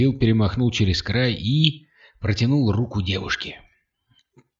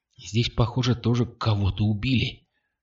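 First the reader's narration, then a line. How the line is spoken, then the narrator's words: Whisper. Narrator (Russian): шепнула она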